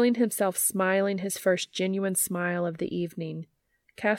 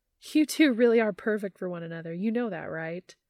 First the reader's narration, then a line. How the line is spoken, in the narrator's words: Laughing, she says